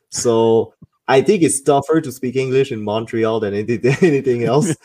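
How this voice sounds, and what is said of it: French-accented English. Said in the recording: “they were hearing my accent, they switched to French ... as soon as I start speaking with my accent, they switch to French”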